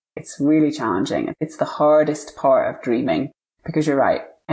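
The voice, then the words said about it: UK accent. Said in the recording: “I heard a UK accent”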